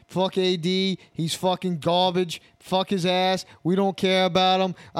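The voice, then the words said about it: Poor imitation of Boston accent. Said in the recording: “was that your impression of a fucking Boston accent? That was fucking terrible. ... you're bad at accents”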